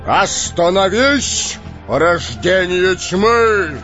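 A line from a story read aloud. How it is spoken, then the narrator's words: Sonorous voice. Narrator (Russian): Звучным голосом произнес Гэндальф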